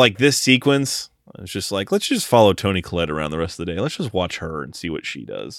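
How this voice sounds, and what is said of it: Usual voice. Nothing is said of it.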